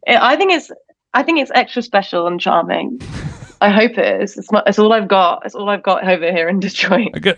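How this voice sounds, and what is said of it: British accent. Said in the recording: “are you from England? ... We don't find your accent charming. We just like British people ... with that accent”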